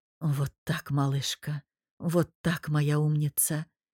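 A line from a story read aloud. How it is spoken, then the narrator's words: Hoarse whisper. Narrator (Russian): хрипло прошептал Мирон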